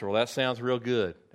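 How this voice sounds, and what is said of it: Put-on Tennessee Southern accent. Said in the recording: “That's my Tennessee accent”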